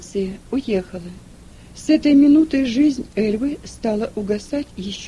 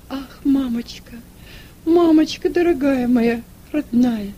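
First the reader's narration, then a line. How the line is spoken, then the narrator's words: Sobbing. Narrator (Russian): рыдая, говорила Эльва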